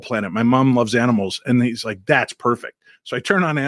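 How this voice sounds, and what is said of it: Usual voice. Nothing is said of it.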